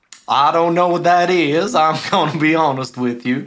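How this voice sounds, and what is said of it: Cartoon rooster voice, southern drawl. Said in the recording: “I'm the big rooster, I'm tall, and I talk with a southern drawl.”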